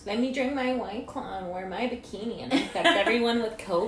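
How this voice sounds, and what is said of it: Impression of a woman. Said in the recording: “did a good impression of her”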